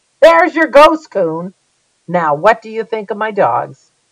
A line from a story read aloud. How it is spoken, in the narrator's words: Laughing, said